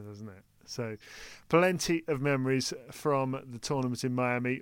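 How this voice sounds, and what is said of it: Usual voice. Nothing is said of it.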